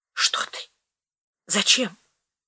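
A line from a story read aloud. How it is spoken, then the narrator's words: Whispered question. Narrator (Russian): спросила шепотом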